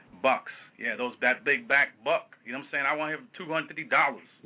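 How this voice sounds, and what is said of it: White Southern slave master impression. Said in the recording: “I'm pretty good with white impersonations, but my white Southern slave master impersonation is a little bit off today”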